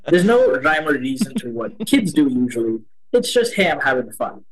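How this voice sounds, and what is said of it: Mixed Indian and American accent. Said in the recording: “The way that my accent sounds, it's a mix, right? It's a mix of Indian and American.”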